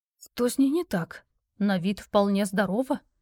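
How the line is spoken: Whispering crowd. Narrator (Russian): шептались вокруг участники

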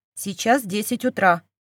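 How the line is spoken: Indifferent tone, hidden irritation. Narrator (Russian): бросила равнодушным тоном, за которым скрывалось жуткое раздражение

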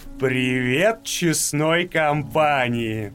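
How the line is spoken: Singsong drawl. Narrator (Russian): Протянул нараспев

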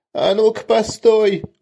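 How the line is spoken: Shrill squeal from thug. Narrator (Russian): взвизгнул мелкий бандит

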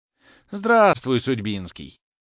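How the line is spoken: Cheerful greeting. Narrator (Russian): весело поздоровался Обломов

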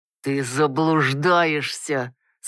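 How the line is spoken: Uncle, through clenched teeth. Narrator (Russian): сквозь зубы процедил дядюшка

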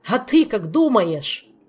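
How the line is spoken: Yelling. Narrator (Russian): заорал Элмар

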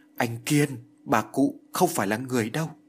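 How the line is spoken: Stammering, broken, trembling. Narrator (Vietnamese): lắp bắp, miệng nói như ngắt quãng, run rẩy nói

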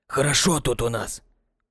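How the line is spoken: Hoarse voice close by. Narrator (Russian): Послышался над самым ухом его сиплый голос

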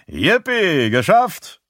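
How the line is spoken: Calling out. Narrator (German): ruft Galen

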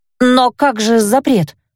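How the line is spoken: Belated, forced out. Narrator (Russian): запоздало выдавила

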